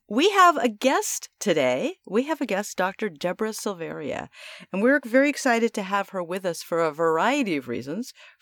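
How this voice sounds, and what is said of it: Voice sounds slightly sick. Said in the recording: “excuse my voice. I'm catching a little bit of a cold, so excuse the way my voice sounds.”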